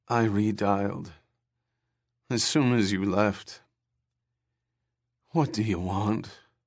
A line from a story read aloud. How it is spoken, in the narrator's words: Her voice sank into a dreary drone of despond